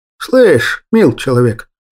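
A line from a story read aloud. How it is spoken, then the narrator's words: Creaky displeased voice. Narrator (Russian): проскрипел я недовольно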